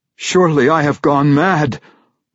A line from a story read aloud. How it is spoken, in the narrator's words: Wolfgar roared suddenly